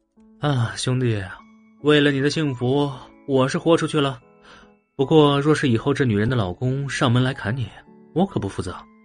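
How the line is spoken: Sighing. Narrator (Chinese): 他叹了叹气道

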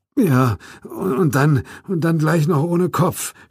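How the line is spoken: Groan. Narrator (German): stöhnte Corden

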